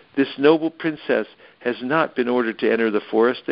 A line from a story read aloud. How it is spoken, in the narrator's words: they cried